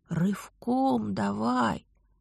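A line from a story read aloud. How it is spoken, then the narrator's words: Tragic whisper. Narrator (Russian): трагическим шепотом посоветовал оборотень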